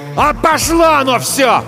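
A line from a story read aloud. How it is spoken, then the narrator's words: Yelling. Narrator (Russian): завопил он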